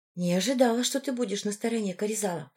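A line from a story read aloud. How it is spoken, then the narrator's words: Whisper. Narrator (Russian): прошептала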